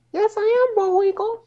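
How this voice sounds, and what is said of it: Cartoon character voice impression. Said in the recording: “I really thought Rocky and Bullwinkle were in the fucking chat. That was a damn good impression ... If I close my eyes, it sounds like Rocky and Bullwinkle are on this podcast.”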